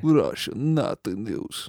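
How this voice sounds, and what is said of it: Put-on Russian accent. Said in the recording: “Is that Russian accent? ... Not really. I don't know. ... That's better.”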